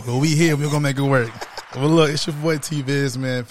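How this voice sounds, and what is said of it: Voice not fully there, slightly strained. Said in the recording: “my voice is not all the way there today”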